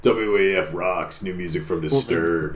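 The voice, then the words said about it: Imitates a radio announcer voice. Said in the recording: “that's what we call a radio voice.”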